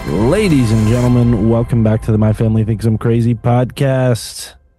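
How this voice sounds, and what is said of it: Hoarse, slightly changed voice. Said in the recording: “Don't mind my voice. I'm a little hoarse ... Maybe this is my new voice, but I feel like I sound different.”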